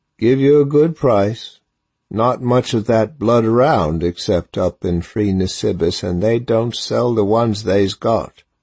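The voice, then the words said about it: Horse trader's regional accent. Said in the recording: “said the trader in a Nisi accent”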